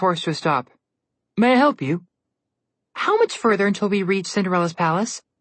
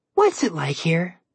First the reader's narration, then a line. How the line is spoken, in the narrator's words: Alex said dreamily